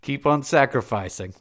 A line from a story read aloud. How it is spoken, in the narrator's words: laughed Spendius